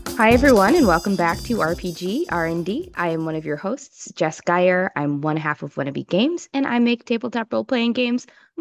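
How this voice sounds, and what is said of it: Sick, congested-sounding voice. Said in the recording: “I'm also a little sick, so sorry that my voice sounds like this.”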